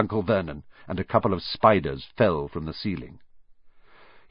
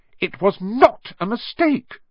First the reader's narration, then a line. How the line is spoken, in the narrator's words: said angrily